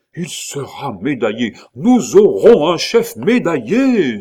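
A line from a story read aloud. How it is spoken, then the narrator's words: Rapturous exclamation. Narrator (French): s'écria Claude avec transport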